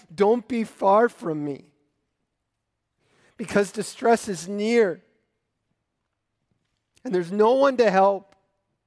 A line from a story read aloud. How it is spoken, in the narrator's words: a spike of pain in his lonely soul as he cries out